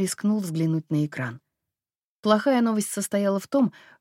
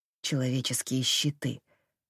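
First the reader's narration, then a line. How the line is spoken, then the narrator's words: Mumble. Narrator (Russian): пробормотал Джем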